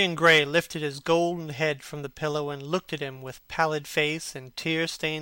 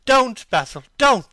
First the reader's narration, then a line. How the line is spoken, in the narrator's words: he cried